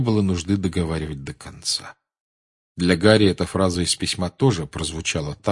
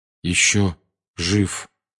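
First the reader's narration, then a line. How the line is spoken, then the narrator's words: Slow. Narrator (Russian): медленно проговорил он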